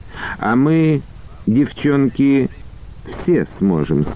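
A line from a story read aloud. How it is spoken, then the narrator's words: Plain. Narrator (Russian): сказала Лида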